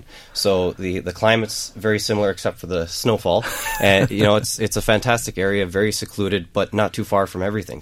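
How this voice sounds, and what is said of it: North American accent. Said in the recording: “That accent is from the far side of the big ocean that's on the west coast of Ireland.”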